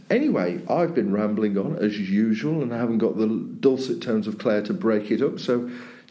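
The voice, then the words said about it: Black Country yam-yam twang. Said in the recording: “my annoying yam-yam twang”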